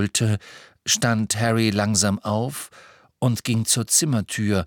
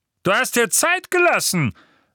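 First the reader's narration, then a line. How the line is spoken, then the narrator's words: Thundering. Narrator (German): donnerte Vernon Dursley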